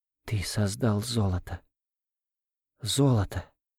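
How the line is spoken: Whisper. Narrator (Russian): опять зашептала Ольга

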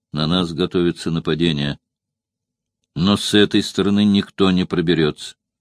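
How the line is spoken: Very calm. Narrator (Russian): Спартак очень спокойно сказал

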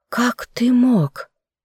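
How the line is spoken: Breathless exhale. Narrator (Russian): выдохнула я

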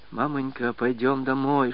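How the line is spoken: Whisper. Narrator (Russian): шептала

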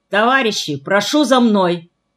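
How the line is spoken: Loud call. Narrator (Russian): громко позвал Мальшик

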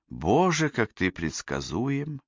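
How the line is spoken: Sigh. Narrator (Russian): вздохнула Кэсси

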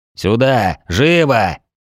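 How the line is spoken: Growling. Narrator (Russian): прорычал я

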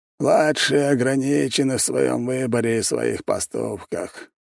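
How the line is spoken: Sighing. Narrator (Russian): вздохнул Битюжин

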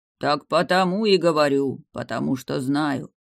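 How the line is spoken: Muffled growl, giant. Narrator (Russian): глухо рыкнул чернобородый великан

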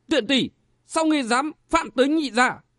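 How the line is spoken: Angry yell. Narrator (Vietnamese): Tên này tức giận gào lên

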